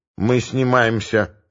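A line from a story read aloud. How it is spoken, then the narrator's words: Grumbled. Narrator (Russian): буркнул Макогонов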